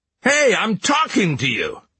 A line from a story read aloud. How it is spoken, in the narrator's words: the boy shouted